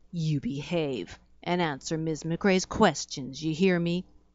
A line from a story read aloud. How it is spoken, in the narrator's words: In a stern voice, she said